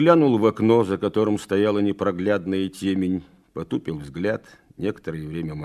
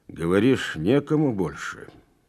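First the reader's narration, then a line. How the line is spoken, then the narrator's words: Through gritted teeth. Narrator (Russian): Процедил сквозь зубы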